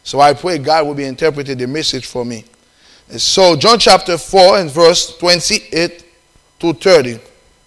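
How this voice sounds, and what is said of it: Haitian-accented English. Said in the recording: “I have Haitian accent ... They don't understand my accent ... I have a Haitian accent”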